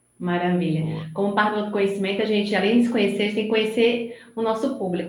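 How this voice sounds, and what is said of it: Northeastern Brazilian accent, São Paulo-tinged. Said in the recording (Portuguese): “pelo meu sotaque, já dá para perceber que eu não sou de São Paulo ... sou nordestina, sou de Recife ... É um sotaque nordestino, meio misturado com São Paulo.”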